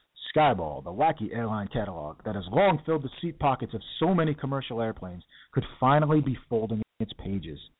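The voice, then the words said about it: Announcer-style radio voice. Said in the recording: “let me get my radio voice.”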